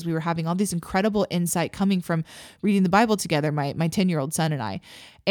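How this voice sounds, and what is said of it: Very fast, excited speech. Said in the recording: “I'm talking so fast, you guys, I'm going to slow it down. I'm just excited”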